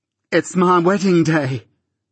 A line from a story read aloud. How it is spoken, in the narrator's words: cried Biddy in a burst of happiness